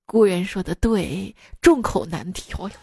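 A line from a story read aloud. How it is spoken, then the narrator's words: Long sigh. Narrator (Chinese): 老板 仰天长叹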